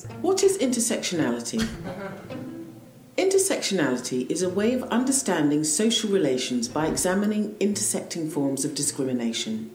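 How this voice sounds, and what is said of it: British accent. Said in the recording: “It's a British accent.”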